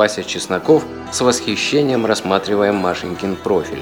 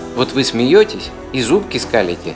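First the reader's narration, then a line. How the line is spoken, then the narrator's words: Plain. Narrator (Russian): сказал Вася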